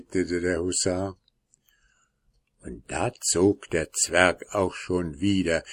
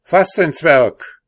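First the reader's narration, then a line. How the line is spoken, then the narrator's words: Hussar shouting to horse. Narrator (German): rief der Husar seinem Pferde zu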